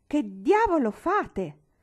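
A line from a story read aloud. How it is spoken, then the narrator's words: Irritated shout. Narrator (Italian): gridò stizzosamente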